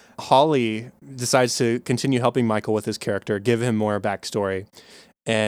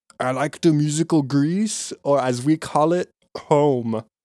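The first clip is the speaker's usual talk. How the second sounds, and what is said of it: Poor put-on foreign accent. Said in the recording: “my accent was awful. I can't do the raspy thing he does.”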